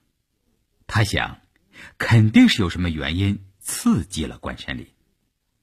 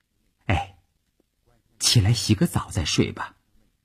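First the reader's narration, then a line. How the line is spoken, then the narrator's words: Softly. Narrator (Chinese): 他轻声地说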